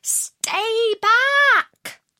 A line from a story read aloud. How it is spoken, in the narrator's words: The other two shouted